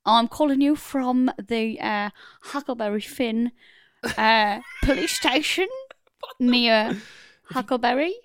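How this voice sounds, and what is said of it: Put-on accent, police caller character. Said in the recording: “This accent.”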